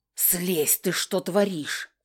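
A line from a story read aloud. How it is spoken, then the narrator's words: Hissed. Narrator (Russian): зашипела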